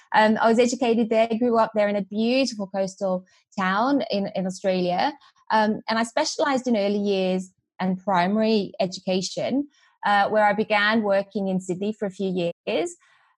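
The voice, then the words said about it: Australian accent. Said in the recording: “you can detect, I'm sure, my Australian twang. That is there.”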